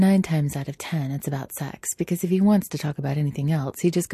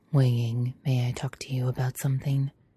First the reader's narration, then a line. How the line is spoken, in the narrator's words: Lan Chen usually just quietly says